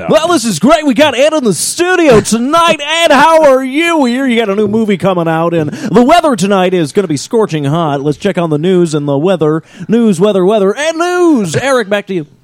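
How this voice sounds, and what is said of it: Radio DJ announcer voice. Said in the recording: “do you do the radio voice... And God made a DJ.”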